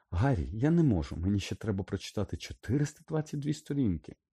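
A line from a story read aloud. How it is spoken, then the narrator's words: Near-hysterical exclamation. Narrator (Ukrainian): майже історично вигукнула Герміона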